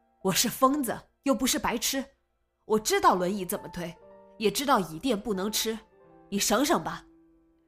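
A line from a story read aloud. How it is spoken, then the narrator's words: Shouted. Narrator (Chinese): 喊道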